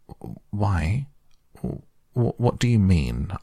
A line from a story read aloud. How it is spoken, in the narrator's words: asked Toad nervously